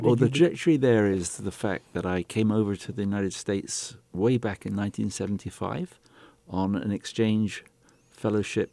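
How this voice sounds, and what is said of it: British accent. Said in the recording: “I could detect a British accent.”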